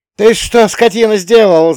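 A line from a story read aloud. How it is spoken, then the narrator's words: Yelling woman. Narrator (Russian): заорала Никитична в сторону двора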